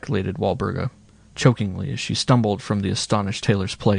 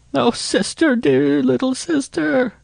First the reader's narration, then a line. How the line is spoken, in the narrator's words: she sobbed